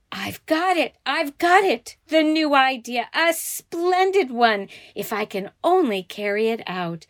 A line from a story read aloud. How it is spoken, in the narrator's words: laughed as if she would die